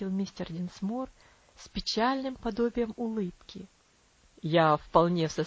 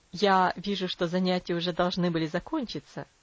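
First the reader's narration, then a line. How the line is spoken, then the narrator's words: Plain. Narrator (Russian): сказал он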